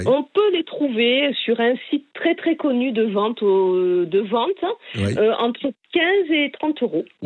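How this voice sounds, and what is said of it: Slight regional accent. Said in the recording (French): “j'adore votre petit accent”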